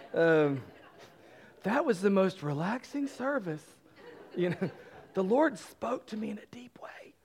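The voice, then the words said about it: Imitates a generic churchgoer's voice. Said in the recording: “none of you actually sound like that. That's just my general church person impersonation.”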